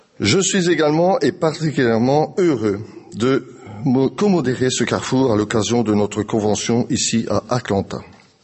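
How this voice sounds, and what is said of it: Belgian French accent. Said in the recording (French): “je viens de Belgique. Connaissant mon accent, qui a été trahi encore une fois, vous en avez douté avec mon parler”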